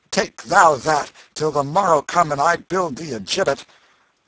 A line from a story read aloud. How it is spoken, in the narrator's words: The prince said fiercely